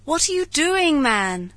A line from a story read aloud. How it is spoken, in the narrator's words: cried Montgomery